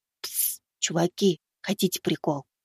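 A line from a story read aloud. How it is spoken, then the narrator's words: Whisper. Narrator (Russian): прошептал я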